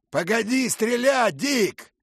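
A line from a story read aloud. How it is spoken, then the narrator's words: Shouting, familiar voice. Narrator (Russian): крикнул знакомый голос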